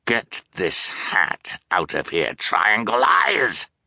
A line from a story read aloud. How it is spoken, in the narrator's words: Count Olaf snarled